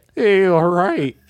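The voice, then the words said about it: Bad impression, 1950s cartoon-like voice. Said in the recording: “That was the worst Tommy impression I've ever heard ... You sound like a 1950s cartoon character.”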